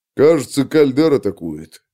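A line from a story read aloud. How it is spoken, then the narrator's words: Grumbling mutter. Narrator (Russian): пробурчал Брендел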